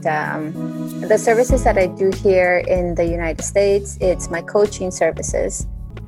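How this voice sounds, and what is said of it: Colombian Spanish accent. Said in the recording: “I'm originally from Bogota, Colombia. So I do have sometimes of an accent”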